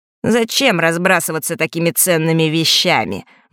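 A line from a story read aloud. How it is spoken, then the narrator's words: Snort. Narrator (Russian): Марк фыркнул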